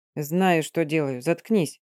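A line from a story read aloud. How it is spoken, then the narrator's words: Through gritted teeth. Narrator (Russian): сквозь зубы процедил Мордо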